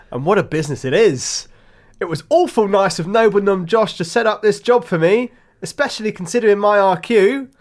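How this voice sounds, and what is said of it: Put-on character accent. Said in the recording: “I've gone for an accent now. I think it's going to further suit the role.”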